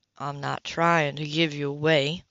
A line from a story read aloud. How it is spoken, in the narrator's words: Leo said calmly